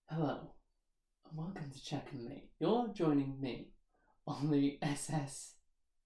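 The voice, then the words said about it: Put-on sexy voice. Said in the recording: “Today I'm trying sexy captain... you'll hear my sexy voice.”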